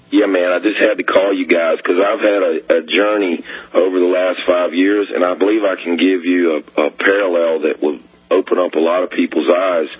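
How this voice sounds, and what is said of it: Hoarse, laryngitis-affected voice. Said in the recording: “apologies for my voice. I'm kind of hoarse. I've got some kind of laryngitis.”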